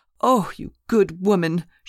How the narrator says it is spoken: she cried

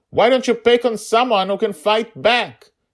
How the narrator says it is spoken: yelled

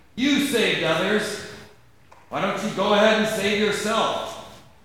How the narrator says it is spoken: Gaius mocked him

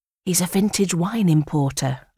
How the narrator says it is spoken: whisper

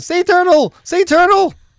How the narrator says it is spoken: at the top of her lungs

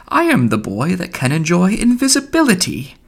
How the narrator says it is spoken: She heard old Royce sing

